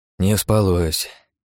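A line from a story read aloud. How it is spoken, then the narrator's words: Sigh. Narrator (Russian): вздохнул я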